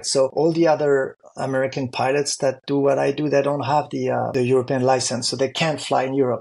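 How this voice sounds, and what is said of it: Accent not really American. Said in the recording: “because I'm also French, in addition to be American, even if my accent is not really American”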